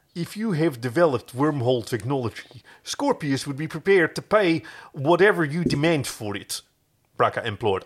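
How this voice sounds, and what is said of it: Bad put-on Dutch accent. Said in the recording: “I'm doing a really bad Dutch accent. ... I would have gone Afrikaans, but yeah, close enough.”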